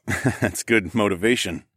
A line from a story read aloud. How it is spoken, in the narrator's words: I chuckled